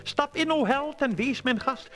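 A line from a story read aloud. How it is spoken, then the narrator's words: Calling out. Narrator (Dutch): riep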